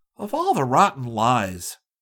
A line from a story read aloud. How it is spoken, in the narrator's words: Rick exclaimed angrily